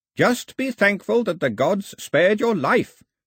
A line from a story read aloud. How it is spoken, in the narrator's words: shouted the old man